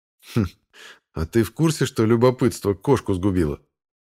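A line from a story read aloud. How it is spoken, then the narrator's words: With a snort. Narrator (Russian): хмыкнул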